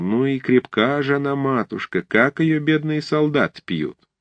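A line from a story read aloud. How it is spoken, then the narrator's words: Cheerful chatter while chewing. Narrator (Russian): Пережевывая ветчину, она охотно и весело разговорилась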